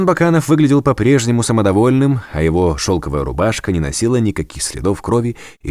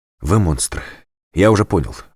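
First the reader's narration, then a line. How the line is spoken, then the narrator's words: Breathless exhale, prisoner. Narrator (Russian): выдохнул пленник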